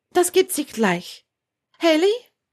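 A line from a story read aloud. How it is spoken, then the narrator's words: Louder call. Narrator (German): Letzteres rief sie lauter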